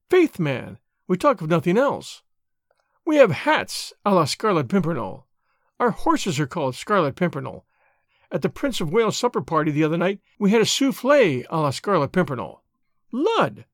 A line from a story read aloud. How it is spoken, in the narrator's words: added gaily